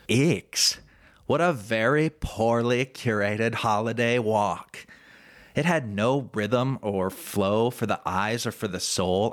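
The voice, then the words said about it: Put-on Los Angeles accent. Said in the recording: “I'm going to try and summon up my best. Once you've been in Angelino ... slip back into the accent”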